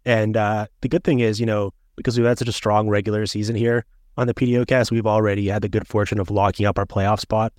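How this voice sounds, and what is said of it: Banged-up, unwell-sounding voice. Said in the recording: “I'm feeling 100% a little banged up myself, as you might be able to tell from my voice”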